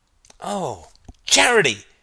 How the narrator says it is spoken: cried Stephen

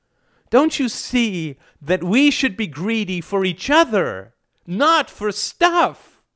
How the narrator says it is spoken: Alice's small frame was wild with passion, and she cried out

